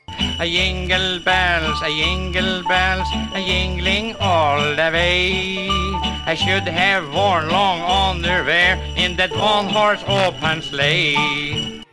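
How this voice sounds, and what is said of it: Singing in thick Scandinavian accent. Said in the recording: “twisted versions of popular songs, all in a thick Scandinavian accent ... his famous Scandinavian alter ego”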